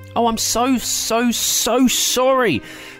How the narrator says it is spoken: gasped, feeling absolutely dreadful

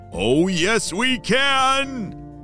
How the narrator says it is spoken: shouted Maverick

